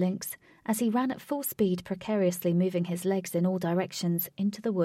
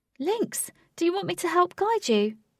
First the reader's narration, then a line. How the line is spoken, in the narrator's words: shouted Katie